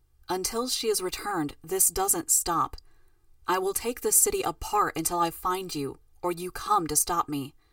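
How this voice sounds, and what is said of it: Flat, emotionless voice. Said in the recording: “Her voice was without effect, flat.”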